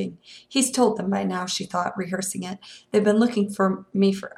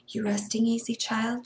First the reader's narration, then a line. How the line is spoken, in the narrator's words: she whispered